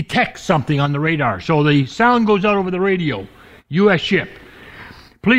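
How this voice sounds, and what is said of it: Usual voice. Nothing is said of it.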